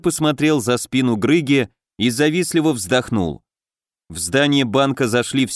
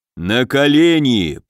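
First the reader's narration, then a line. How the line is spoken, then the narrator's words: Orc warrior's growl. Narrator (Russian): прорычал воин-орк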